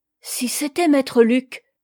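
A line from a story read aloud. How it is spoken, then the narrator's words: Sudden realization cry. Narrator (French): s'écria Yomi, frappée d'une idée subite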